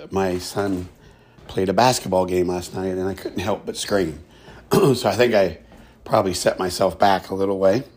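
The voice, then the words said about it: Slightly hoarse voice. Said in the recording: “My voice is a little better ... I'm still a little hoarse.”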